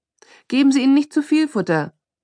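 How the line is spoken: Calling after someone. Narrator (German): rief hinter ihr her

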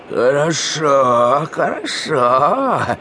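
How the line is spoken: Grumble. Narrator (Russian): проворчала она

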